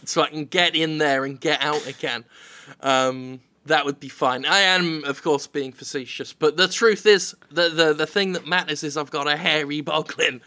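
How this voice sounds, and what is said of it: British accent. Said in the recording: “your British accent.”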